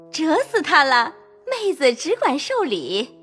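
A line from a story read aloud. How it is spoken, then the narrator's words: Laughing. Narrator (Chinese): 凤姐笑说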